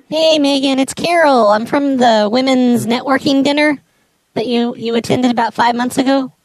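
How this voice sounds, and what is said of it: Put-on character voice. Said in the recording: “I forgot to put on the Carol voice ... I have the voice on now”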